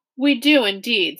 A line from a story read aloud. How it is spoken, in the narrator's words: said Dune's father hastily